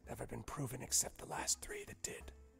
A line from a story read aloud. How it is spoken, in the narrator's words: whispers to you, and says